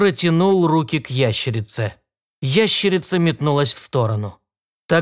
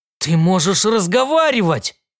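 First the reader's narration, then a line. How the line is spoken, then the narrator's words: Exclaimed. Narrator (Russian): воскликнул Уильям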